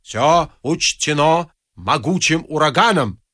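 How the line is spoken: Plain. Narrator (Russian): сказал О'Бендер

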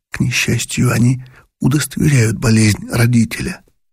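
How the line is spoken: Sighing whisper. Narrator (Russian): прошептал он, вздыхая

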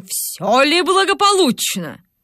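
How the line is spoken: Stern question. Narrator (Russian): спросил строгим голосом

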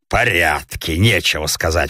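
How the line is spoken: Grumbling. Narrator (Russian): проворчал сосед, обращаясь к французу

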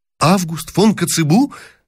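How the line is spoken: Delighted exclamation. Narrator (Russian): воскликнул было с порывом восторга принц Евгений

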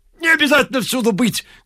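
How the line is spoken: Shouting. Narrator (Russian): кричал Ляпис

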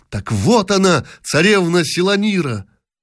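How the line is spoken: Prince's irrepressible exclamation. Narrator (Russian): Принц не удержался и воскликнул

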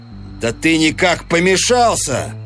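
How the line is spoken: Shouted. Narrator (Russian): крикнул Эванс

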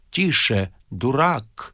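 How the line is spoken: Menacing. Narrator (Russian): сказал Остап грозно

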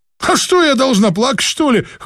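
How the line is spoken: Scoffing. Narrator (Russian): хмыкнула Клавдия

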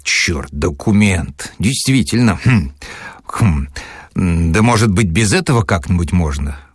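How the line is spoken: Uncertain, melancholy voice. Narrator (Russian): Голос его звучал неуверенно и тоскливо

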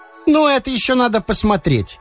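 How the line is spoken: Playful exclamation. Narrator (Russian): задорно по адресу мужа воскликнула Шурочка

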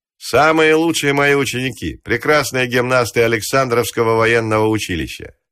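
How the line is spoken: Loud statement. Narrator (Russian): Постников громко сказал

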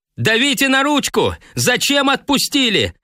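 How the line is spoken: Yelling. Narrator (Russian): заорал он, оборвав торжественное пение

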